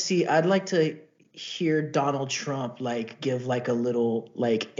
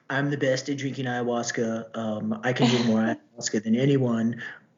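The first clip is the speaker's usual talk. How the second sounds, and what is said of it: Donald Trump impression. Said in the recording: “That's not a bad impression.”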